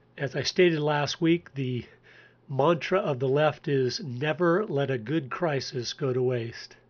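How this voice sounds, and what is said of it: Slightly unwell-sounding voice. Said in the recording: “excuse my voice because I'm still under the weather a little bit”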